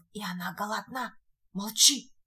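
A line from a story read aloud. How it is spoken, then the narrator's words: Whispered hushing. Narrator (Russian): шепотом остановил его Шарль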